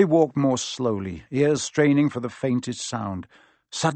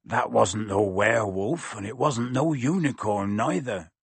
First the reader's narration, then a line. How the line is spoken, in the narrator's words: said Hagrid grimly